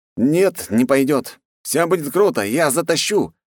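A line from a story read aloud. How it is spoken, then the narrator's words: Cheerful. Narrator (Russian): весело сказал Андрей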